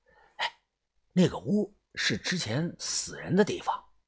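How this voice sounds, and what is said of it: Quiet, hushed speech. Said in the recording (Chinese): “我指着东屋小声的说”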